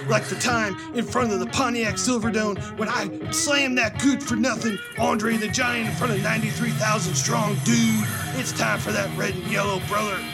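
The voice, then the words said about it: Raspy Hulk Hogan impression. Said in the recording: “your Hulk Hogan ... my throat's about torn up from the Hulk impression ... you were pretty spot on with that ... you should not have been so raspy on your throat”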